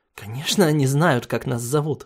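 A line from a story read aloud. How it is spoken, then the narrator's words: Chuckling. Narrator (Russian): хохотнул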